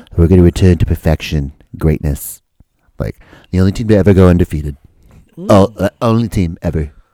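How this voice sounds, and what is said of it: Imitates another person's voice. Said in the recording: “my awesome Donald Trump impression.”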